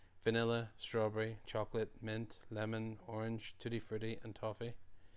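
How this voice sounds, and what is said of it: Low, quiet voice. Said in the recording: “A waitress in a low voice.”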